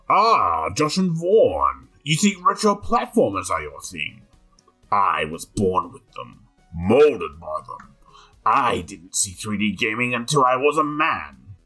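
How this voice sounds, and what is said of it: Very bad Bane character voice. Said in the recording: “extremely bad Bane impression”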